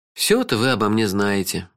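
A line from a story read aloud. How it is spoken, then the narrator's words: Sighing. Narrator (Russian): вздохнул я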